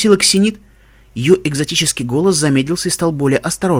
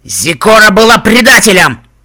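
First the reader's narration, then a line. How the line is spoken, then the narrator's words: Growling. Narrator (Russian): рыкнул Стилхуфс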